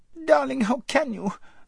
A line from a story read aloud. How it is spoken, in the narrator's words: squeaked Lazareline